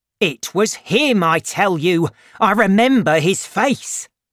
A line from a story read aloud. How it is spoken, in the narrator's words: Jondrette shouting